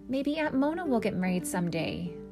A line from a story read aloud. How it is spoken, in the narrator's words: said her father